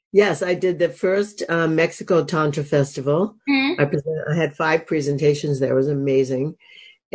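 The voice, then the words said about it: Gravelly, hoarse voice from a cold. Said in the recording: “I have a little cold today. So if my voice sounds more gravelly than ever... I'm very gravelly today”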